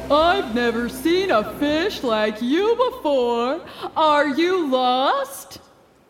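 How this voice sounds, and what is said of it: Booming voice. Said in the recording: “the wave spoke in a booming voice”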